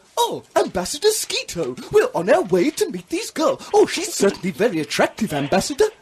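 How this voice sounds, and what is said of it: Imitates C-3PO robot voice. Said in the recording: “I'll do an impression of you... I just talk like that... That's quite good... It's too similar.”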